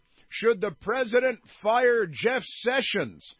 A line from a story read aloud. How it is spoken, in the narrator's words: He yelled